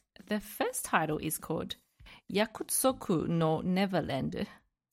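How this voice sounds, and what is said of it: Japanese accent on a title. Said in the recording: “I used the Japanese accent.”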